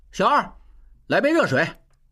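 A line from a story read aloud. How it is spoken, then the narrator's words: Calling out. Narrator (Chinese): 小栓口中叫着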